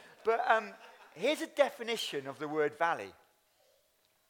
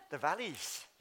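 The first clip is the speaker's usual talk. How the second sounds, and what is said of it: Poor put-on Welsh accent. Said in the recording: “that's a really poor Welsh accent.”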